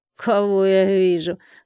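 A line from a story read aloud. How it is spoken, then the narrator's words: Hoarse voice. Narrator (Russian): хрипло произнесла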